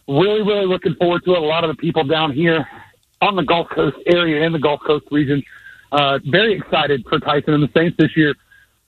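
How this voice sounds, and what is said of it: Breathless, out-of-breath speech. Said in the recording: “Why are you so out of breath?”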